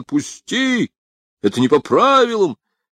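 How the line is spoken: Screaming. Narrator (Russian): закричал

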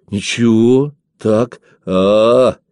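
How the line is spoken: Drawn-out, satisfied. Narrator (Russian): протянул тот, по-видимому, удовлетворенный ответом

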